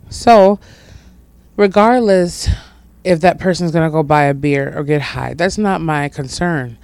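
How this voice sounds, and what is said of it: Slightly scratchy voice. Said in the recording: “My voice is a little scratchy”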